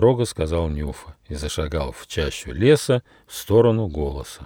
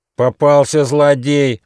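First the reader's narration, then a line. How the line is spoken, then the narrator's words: Angry deer shouting. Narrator (Russian): злобно закричал олень Замбар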